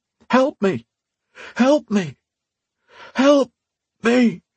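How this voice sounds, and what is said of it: Hoarse, desperate pleading voice. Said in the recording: “a hoarse, desperate litany, a plea for mercy”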